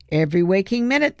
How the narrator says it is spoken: the man said cheerfully

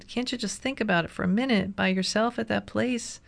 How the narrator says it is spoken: I pleaded

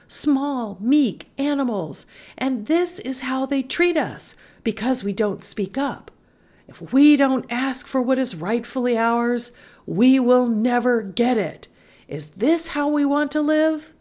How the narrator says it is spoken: she yelled

